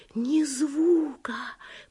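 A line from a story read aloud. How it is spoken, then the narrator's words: Whispering. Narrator (Russian): прошептала Оливия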